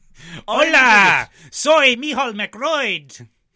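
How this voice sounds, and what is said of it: Insultingly Irish character voice. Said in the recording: “an insulting voice in Spanish ... it's an insultingly Irish character who happens to speak”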